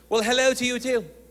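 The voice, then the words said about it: Put-on British accent. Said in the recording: “around British people, I like to talk like them ... tried the British accent”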